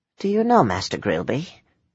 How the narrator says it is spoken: He whispered

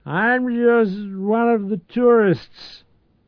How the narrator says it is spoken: a drunken voice shouted

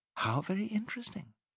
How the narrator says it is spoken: she murmured

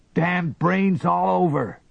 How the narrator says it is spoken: yelled, running uphill

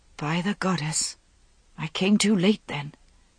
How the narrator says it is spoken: Vivian whispered to herself

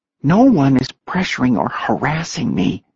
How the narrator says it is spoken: Jordan whispered, paling

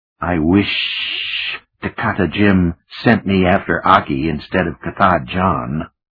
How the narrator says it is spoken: Moki rasped

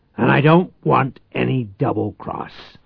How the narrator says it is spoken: Reich growled in a deadly voice

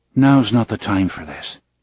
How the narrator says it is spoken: he said softly

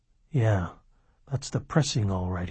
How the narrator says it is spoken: he muttered

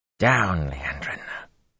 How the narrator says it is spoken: she hissed, almost under her breath

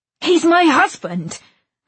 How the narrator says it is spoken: snapped

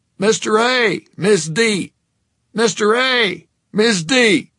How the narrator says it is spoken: Mike Koslaw, face dripping cream, began to bellow

